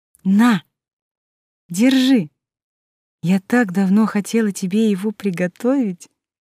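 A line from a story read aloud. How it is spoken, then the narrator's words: Cooing. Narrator (Russian): проворковала перевёртыш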